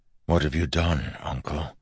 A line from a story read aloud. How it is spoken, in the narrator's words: Wax asked softly